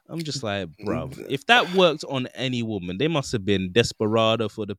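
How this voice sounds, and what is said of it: Usual voice. Nothing is said of it.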